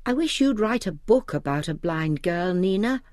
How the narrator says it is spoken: She sighed again, and then she said

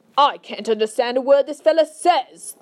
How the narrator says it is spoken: head of the army snapped

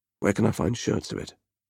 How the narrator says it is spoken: Temujin murmured

